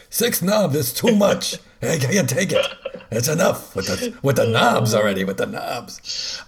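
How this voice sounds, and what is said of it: Put-on Yiddish accent. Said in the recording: “You gotta say that in a Yiddish accent.”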